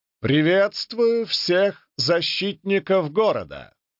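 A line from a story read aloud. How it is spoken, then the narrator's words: Firm loud voice. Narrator (Russian): неожиданно твердым и громким голосом произнес король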